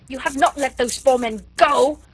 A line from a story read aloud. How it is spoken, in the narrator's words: thundered Chauvelin menacingly